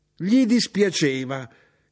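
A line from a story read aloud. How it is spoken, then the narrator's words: Mother shouting. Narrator (Italian): gridò mia madre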